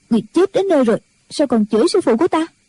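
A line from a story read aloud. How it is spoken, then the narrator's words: Angry. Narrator (Vietnamese): Chim Xuân giận dữ nói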